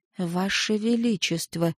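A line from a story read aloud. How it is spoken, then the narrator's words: Whisper. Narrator (Russian): прошептала шаманка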